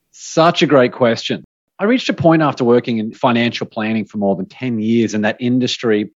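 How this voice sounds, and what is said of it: Australian accent. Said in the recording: “you don't have a typical American accent ... from down under”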